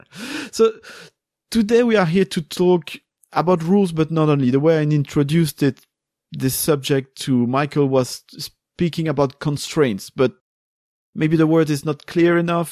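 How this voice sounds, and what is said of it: Non-native English accent. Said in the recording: “English is not my first language ... We have the same accent.”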